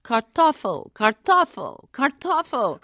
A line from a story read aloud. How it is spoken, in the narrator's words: her voice growing louder and more insistent with each repetition